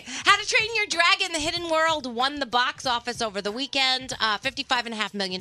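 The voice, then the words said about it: Congested voice from a cold. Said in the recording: “I have a cold. That's why I sound like this. ... everyone's asking why you sound like ... crap. ... this is extra crappy. ... do you feel as bad as you sound? ... I'm tired”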